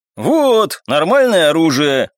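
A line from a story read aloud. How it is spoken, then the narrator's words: Exclaimed, young man. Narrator (Russian): воскликнул второй парень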